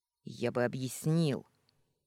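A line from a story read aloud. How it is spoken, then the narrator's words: Irritated, curt. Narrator (Russian): раздраженно бросил он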